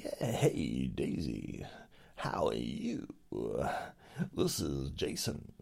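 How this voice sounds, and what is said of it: Weird put-on voice. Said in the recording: “That's a weird voice. Very weird.”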